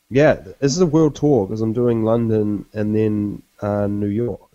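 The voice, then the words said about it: Nasal, congested voice. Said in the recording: “A little sick, so apologies you, if I ... I sound nasal.”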